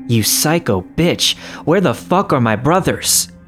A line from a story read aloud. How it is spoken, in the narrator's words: he yelled